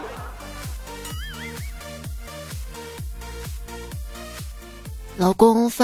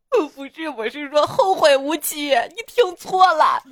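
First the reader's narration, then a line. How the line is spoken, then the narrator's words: Crying. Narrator (Chinese): 牧师哭着说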